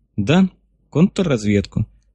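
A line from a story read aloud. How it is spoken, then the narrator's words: Calm agreement. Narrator (Russian): спокойно согласился ученый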